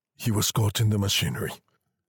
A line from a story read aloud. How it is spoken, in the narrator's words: said the visitor at length in a low voice